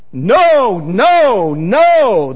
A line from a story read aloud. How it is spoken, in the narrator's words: the crowd shouted in reply